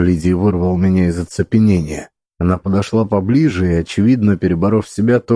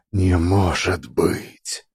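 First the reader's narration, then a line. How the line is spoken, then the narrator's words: Whisper. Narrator (Russian): прошептала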